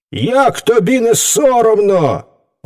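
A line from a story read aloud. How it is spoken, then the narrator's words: Indignant shout, animals. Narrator (Ukrainian): обурено вигукнули звірі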